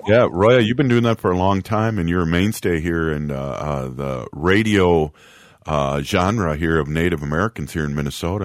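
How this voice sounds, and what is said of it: Deep baritone voice, sounds congested. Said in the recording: “that deep baritone basal voice of yours ... I have a cold”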